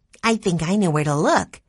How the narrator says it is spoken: Violet said, her voice excited

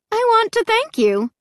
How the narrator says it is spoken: she said in a cheery voice

